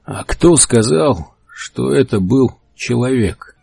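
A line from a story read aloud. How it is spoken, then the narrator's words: Hoarse, heavy, strained. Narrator (Russian): Хрипло и тяжело, словно слова резали ему горло, проговорил Генри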